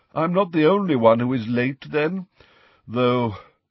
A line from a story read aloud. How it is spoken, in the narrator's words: he sighed